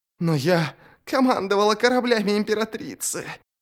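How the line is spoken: Hoarse croak. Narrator (Russian): прохрипела Шадик Ширам

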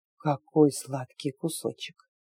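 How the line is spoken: Soft dreamy whisper. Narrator (Russian): раздался тихий мечтательный шепот

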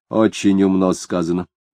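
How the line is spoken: Grumbled. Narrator (Russian): проворчал Крейтон

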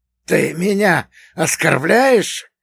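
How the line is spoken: Hissed. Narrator (Russian): прошипел Игошка

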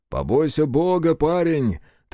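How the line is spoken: Shouting to someone nearby. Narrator (Russian): Трофим крикнул копавшейся в огороде жене

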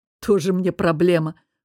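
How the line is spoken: Snorting. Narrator (Russian): фыркнул мой самопровозглашенный антидепрессант

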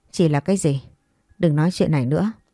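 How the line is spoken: Suspicious question. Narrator (Vietnamese): anh ta khẽ cau mày nghi ngờ hỏi

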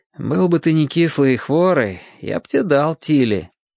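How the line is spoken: Said after laughing. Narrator (Russian): Ваня, посмеявшись, все же сказал

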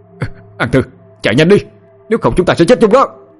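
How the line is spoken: Yelled. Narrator (Vietnamese): Quân gào lên một tiếng

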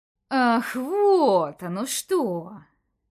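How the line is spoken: Hissing commissioner. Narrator (Russian): прошипел комиссар

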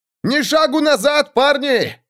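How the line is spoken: Shouting, heavy graying veteran. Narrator (Russian): крикнул его сержант, грузный ветеран с седеющей бородой

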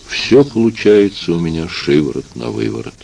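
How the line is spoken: Quiet added remark. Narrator (Russian): тихим голосом добавила

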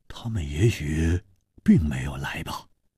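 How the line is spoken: Deep, grave voice. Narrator (Chinese): 黄鲁直沉声说

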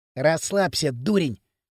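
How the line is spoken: Hissing. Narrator (Russian): шипел Пакля

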